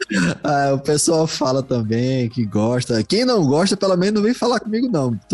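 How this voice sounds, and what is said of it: Brazilian Portuguese Recife accent. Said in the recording (Portuguese): “De onde você é? ... Eu sou de Recife. ... adoro esse sotaque.”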